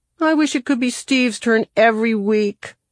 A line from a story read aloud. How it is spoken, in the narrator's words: Kevin whined